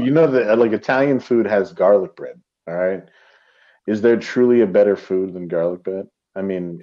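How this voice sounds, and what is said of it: Usual voice. Nothing is said of it.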